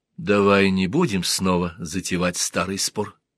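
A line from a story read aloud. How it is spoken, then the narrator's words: Soft. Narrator (Russian): сказала она мягко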